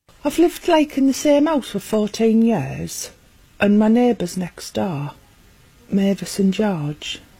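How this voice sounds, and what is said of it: Strong regional accent. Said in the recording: “there is an accent. ... It's not even English.”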